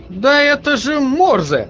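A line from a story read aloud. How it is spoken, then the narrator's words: Sudden exclamation. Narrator (Russian): неожиданно воскликнул Джерри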